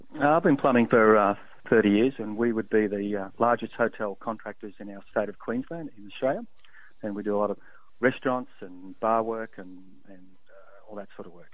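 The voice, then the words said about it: Slight foreign accent. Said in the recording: “He has a little foreign accent.”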